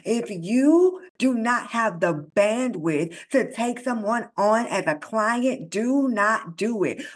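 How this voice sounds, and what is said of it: Fed-up, exasperated tone. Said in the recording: “y'all can hear it in my voice that, quite frankly, I am sick of it.”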